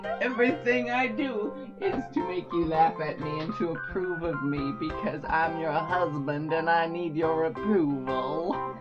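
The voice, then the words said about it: Southern belle-like accent. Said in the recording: “Neither does your accent. ... You sound a little bit like Scarlett O'Hara ... I was going to say Blanche from Golden Girls”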